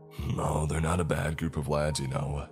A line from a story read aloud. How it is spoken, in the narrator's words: chuckles